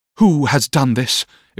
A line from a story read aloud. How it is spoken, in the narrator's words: exclaimed Miss Mills